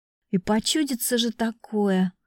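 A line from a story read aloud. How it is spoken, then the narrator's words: Exhaled breathily. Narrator (Russian): выдохнула я вместе с облачком пара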